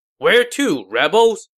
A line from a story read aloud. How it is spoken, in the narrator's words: Zhao Yun shouted